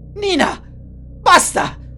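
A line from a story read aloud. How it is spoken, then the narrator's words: Brother yelling. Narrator (Italian): urlò suo fratello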